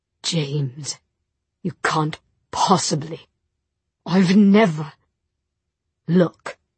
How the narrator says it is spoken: In a choked voice, he said

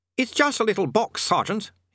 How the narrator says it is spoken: he snapped

